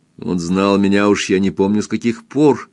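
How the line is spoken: Angry. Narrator (Russian): сердито сказала Кристин

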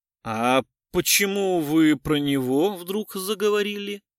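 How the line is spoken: Feigned indifference. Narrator (Russian): спросил он нарочито равнодушным тоном

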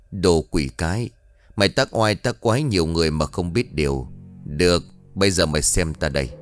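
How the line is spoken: Harsh growling voice. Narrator (Vietnamese): Ông thầy Hải lúc này lên tiếng gằn giọng

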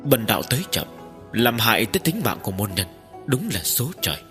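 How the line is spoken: Sorrowful sigh. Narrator (Vietnamese): Tiếp dẫn đạo nhân thở dài một tiếng

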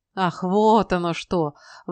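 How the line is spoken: Exclaimed, then laughed. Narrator (Russian): воскликнул Гидвон и рассмеялся

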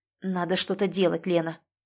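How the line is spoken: Muffled near-whisper. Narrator (Russian): Она сказала это глухо, почти шепотом

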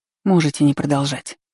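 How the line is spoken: Sighing. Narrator (Russian): вздохнула

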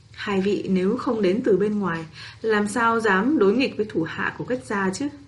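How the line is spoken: Old woman, smiling. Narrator (Vietnamese): Lão phụ mỉm cười nói

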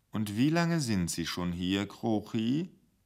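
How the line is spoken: Ominously soft voice. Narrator (German): die Stimme des Intendanten so sanft wurde

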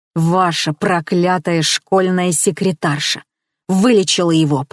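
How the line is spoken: Growled. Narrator (Russian): прорычала я

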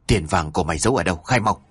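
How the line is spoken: Whispered demand. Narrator (Vietnamese): tên ăn mày thì thầm hỏi

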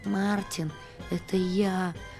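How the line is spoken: Moaning goose. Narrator (Russian): простонал связанный гусь

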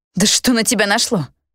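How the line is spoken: Growl. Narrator (Russian): рыкнула

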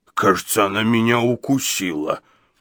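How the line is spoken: Bewildered, forced out. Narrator (Russian): Недоуменно выдавил Гадсон

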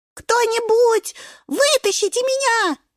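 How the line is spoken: Little spinach wailing. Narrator (Russian): вопит шпинатик

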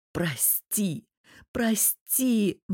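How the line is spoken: Persistent hoarse plea. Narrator (Russian): не сдается Богдан … хрипя

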